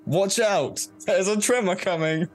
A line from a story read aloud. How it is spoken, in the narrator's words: shout